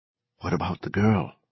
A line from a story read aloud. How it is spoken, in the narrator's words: Adley McKean whispered